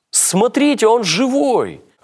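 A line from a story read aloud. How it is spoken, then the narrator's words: Joyful, surprised shout. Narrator (Russian): радостно, удивленно закричала Ирина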